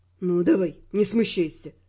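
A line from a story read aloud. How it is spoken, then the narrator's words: Gentle encouragement. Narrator (Russian): мягко подтолкнул меня Раймонд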